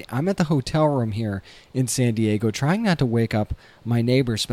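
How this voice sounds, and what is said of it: Soft, quiet speech. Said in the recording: “I'm talking so softly”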